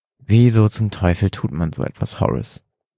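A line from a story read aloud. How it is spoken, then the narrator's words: Trembling-voiced question. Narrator (German): fragte William mit zitternder Stimme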